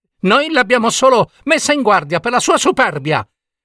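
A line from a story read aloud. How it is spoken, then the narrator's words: Gossiping women shouting. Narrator (Italian): gridarono le comari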